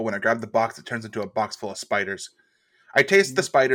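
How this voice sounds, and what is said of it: Usual voice. Nothing is said of it.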